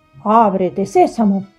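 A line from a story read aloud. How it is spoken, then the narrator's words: Firm voice. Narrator (Spanish): dijo con voz firme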